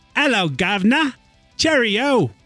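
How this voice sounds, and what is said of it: Rough put-on British accent. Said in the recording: “my British accent? ... I'm thinking that was a little rough ... your British accent”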